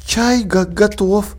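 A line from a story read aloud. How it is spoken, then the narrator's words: Trembling voice. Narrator (Russian): дрожащим голосом произнесла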